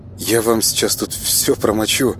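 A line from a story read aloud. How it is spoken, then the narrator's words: Guilty mumble. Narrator (Russian): виновато пробормотала она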